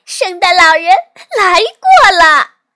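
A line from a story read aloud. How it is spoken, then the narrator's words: Happy shouting. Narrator (Chinese): 露露开心的喊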